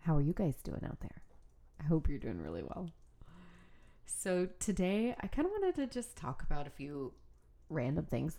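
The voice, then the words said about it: Speaking with a cold. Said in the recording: “I have a cold”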